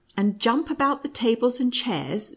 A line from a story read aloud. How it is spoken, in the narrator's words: said, laughing